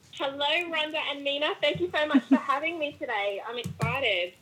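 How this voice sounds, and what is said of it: Australian accent. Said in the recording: “how much I love her accent ... I am Australian ... my accent”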